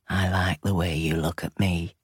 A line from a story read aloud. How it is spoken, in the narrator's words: said, his voice rough